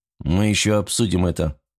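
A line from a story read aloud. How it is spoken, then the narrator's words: Dry curt speech. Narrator (Russian): сухо сказал Богданов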